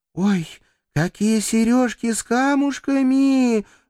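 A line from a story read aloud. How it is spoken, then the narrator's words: Delighted squeal. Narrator (Russian): Восторженно взвизгнув, Рита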